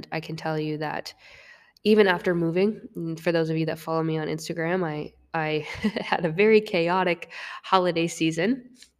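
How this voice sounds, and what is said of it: Raspy, deep, congested sick voice. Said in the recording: “that's why I sound like garbage and my voice is a little bit raspy here, because I am sick ... I promise I don't sound this deep in real life when I'm not sick, and you can probably hear me sniffle”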